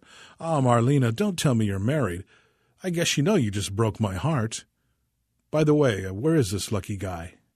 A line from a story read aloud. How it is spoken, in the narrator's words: sighed